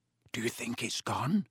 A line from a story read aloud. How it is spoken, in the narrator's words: Harry whispered